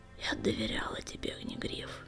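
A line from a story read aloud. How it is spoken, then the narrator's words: Hoarse breathy exhale. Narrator (Russian): хрипло выдохнула синяя звезда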